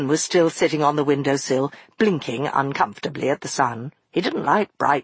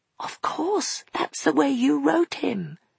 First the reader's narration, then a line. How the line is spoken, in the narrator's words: she whispered back